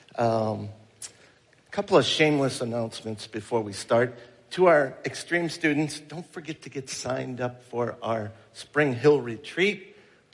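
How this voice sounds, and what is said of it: Voice with a cold, sore throat. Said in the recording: “I have a little cold. ... I got a little sore throat today, challenging there”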